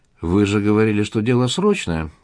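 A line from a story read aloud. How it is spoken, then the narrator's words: Dry reminder. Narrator (Russian): сухо напомнил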